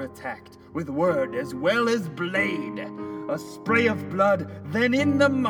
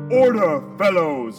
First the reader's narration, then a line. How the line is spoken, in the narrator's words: Ryles bellowed as tempers flashed and flared